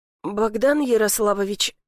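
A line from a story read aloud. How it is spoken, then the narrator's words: Trembling voice. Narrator (Russian): начинает Витька дрожащим голосом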